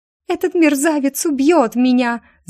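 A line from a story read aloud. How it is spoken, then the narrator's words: Terrified scream. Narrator (Russian): закричала Полина в ужасе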